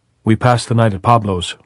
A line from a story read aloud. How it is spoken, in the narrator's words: Robert Jordan said